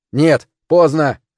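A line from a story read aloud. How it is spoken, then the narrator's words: Shout. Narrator (Russian): крикнул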